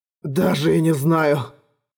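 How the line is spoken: Hoarse, exhausted gasp. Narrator (Russian): хрипло выдохнул Эрагон, чуть не падая от усталости

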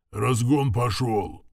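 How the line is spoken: Low muffled growl. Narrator (Russian): Глухо рыкнул главный механик

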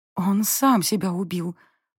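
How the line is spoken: Hoarse wheeze. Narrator (Russian): просипела я

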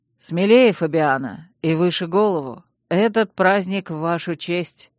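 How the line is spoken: Calm. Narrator (Russian): спокойно сказал Чейз

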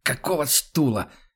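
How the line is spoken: Hoarse rasp. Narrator (Russian): хрипит он

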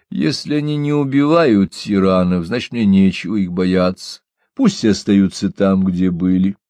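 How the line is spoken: Conciliatory, forced laugh. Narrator (Russian): Генрих попытался засмеяться и сказал, желая полюбовно закончить разговор

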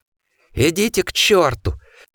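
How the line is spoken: Forced out. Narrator (Russian): выдавил он из себя

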